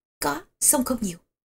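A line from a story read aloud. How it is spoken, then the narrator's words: Lowered voice, reporting. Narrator (Vietnamese): Bàn Thông hạ giọng bẩm báo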